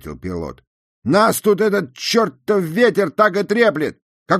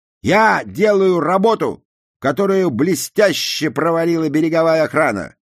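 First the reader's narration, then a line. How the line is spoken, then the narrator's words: Angry. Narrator (Russian): сердито добавил Джуди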